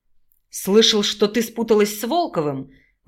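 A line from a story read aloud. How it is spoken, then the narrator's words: Indignant barking shout. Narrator (Russian): возмущенно рявкнул Дидоренко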